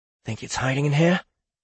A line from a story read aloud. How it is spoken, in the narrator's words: He whispered